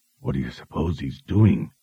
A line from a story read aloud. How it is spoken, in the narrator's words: Morley whispered